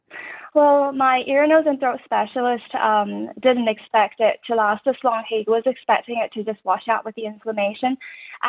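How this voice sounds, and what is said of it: Speaks with an Irish accent. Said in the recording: “I sound like Irish to you ... it didn't sound like me at all ... a different accent”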